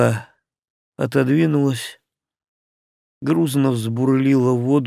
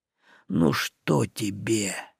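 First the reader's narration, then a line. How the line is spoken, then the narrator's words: Cracked, fawning voice. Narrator (Russian): дребезжал он рваным голосом, с той жалкой, притворной лестью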